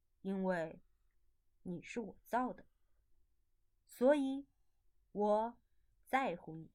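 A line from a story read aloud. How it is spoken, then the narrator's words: Slow, gentle. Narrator (Chinese): 伊莱缓缓地说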